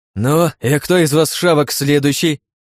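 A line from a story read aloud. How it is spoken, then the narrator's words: Harsh bark. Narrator (Russian): Рявкнул я на волков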